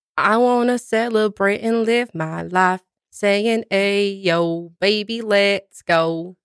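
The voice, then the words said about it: Singing in a put-on accent. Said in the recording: “I'm not sure why I got an accent”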